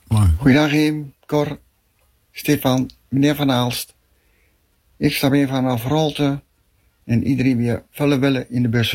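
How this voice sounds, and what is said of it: Raalte regional Dutch accent. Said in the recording (Dutch): “Raalds accent.”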